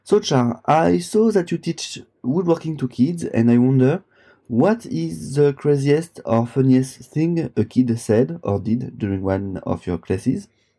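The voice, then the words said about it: French accent. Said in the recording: “from France... it goes along with my accent”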